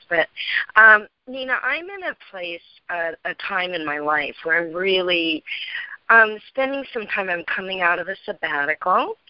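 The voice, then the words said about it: Hoarse, strained voice. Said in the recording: “excuse my voice. I've got a little laryngitis.”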